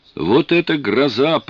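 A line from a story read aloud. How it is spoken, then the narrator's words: Shouting. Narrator (Russian): прокричал я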